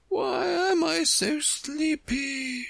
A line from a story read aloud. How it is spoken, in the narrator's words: she moaned